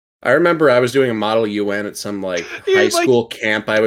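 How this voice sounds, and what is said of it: Usual voice. Nothing is said of it.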